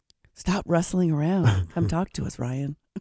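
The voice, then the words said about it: Quiet, sultry voice. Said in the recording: “sexy voice ... I mean the quiet kind of kind of voice, not sexy voice.”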